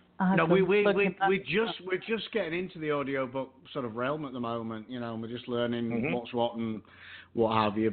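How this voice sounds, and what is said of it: Yorkshire English accent. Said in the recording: “any book read with my accent, unless it was specifically set in Yorkshire”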